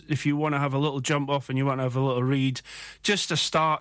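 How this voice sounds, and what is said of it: South Country English accent. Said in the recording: “I've got a South Country accent. That seems a bit strange.”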